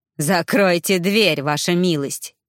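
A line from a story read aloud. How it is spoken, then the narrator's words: Hysterical laugh, criminal. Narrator (Russian): истерично хохотнул преступник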